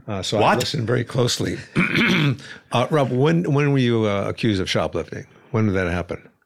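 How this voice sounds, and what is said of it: Affected East Coast middle-aged man accent. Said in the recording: “affected East Coast accent of a 50-year-old man”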